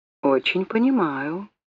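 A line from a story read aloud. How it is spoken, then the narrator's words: Quiet. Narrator (Russian): тихо сказал Доллар Хайт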